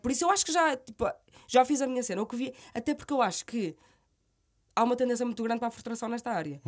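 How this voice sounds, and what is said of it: Strong Minho Portuguese accent. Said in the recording (Portuguese): “sotaque minhoto tão uhum. uh, vincado como o meu”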